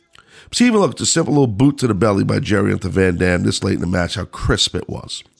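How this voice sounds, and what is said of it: Sick, congested voice. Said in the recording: “sorry for my voice ... you can tell I'm just really under the weather ... just got like a head cold, chest cold, everything”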